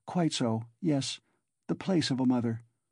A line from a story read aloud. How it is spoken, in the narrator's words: answered, timidly and hurriedly